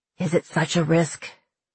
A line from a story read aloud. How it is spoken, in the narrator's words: said, his voice faltering